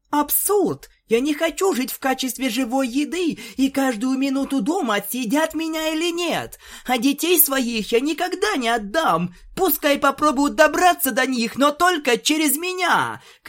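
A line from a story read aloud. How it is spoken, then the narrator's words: Shouting mare. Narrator (Russian): кричала бежевая кобылка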